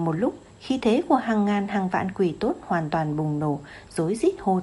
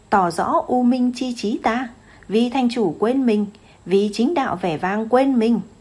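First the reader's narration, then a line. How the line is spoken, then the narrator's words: Demon general shouting. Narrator (Vietnamese): Một quỷ tướng ... hét lên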